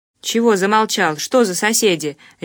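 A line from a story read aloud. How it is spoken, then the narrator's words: Barking. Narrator (Russian): рявкнул Ковалев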